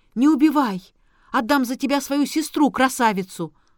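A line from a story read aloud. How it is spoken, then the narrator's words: Wolf shouting. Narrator (Russian): волк крикнул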